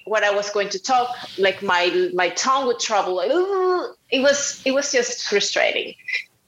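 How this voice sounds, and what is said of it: Strong non-native English accent. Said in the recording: “my English is not very good. I have a strong accent.”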